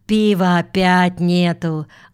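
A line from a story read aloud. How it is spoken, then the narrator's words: Mutter. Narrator (Russian): буркнул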